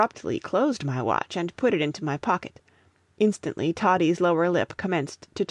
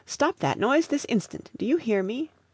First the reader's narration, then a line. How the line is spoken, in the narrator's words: I exclaimed with some anger